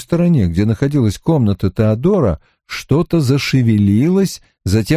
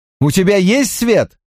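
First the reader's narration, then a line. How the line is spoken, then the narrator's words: Shout. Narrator (Russian): крикнул я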